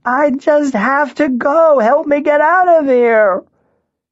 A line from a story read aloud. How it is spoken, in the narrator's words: she screamed